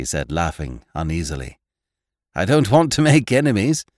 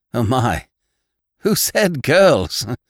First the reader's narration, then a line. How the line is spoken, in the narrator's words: exclaimed John Thomas